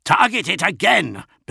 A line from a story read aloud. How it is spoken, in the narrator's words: bellowed Namat Jira